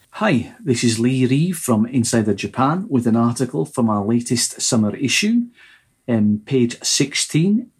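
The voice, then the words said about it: Scottish accent. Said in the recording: “he does have a Scottish accent”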